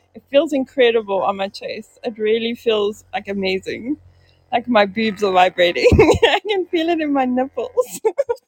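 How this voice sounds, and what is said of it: Vibrating, shaky voice, struggling to talk. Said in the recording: “my whole body is vibrating. I think you can even hear it in my voice... I can, yes... I'm trying really hard to talk. Words are not the easiest thing to form”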